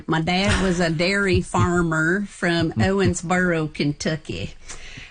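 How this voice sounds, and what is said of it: Put-on Kentucky accent. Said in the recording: “I have to do this with the right accent.”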